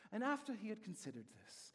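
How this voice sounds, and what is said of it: Poor put-on British accent. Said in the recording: “It's almost like a British accent... You know, that was a terrible British accent.”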